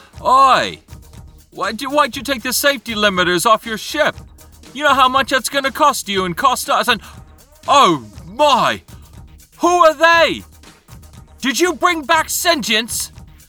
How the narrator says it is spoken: one of the people in yellow gets within shouting distance of you and says

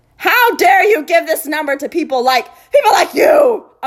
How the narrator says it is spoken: Uncle Vernon had roared, spraying Harry with spit

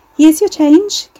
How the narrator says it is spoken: Carrie said, her own voice ringing in her ears over the chirpy strains of the chart music

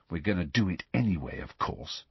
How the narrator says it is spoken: he said quietly

